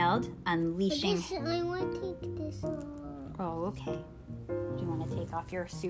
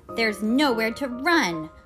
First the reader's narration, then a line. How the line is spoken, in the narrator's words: Electro yelled